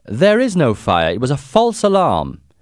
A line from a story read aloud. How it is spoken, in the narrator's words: I shouted